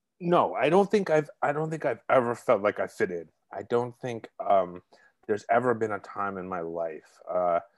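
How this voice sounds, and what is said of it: Brooklyn accent. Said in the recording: “I'm originally from Brooklyn, if you can't tell by the accent”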